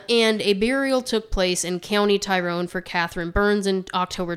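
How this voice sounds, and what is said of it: Usual voice. Nothing is said of it.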